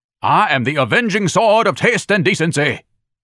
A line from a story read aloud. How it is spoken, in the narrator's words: was shouting